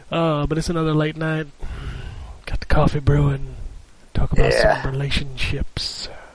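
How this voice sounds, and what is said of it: Soothing radio DJ voice. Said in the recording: “Listen to my soothing radio voice.”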